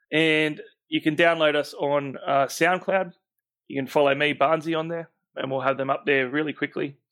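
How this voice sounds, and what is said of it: Rough, strained-sounding voice. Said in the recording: “my voice is probably sounding terrible. So I'll get some lozenges for the next one. ... I'm going to go and rest my voice up.”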